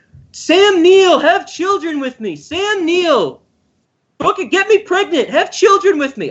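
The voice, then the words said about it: Imitates another person's voice. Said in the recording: “I'm imitating Laura Dern right there.”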